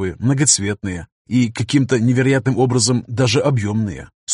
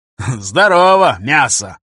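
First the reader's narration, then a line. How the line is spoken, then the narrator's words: Joyful. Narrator (Russian): радостно сообщил Гоши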